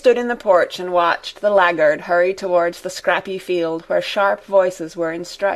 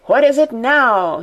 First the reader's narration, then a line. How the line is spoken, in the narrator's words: cried continually, without listening